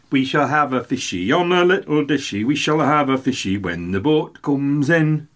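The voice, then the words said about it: Sung attempt at Geordie accent. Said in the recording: “That's an attempt to the Geordie accent.”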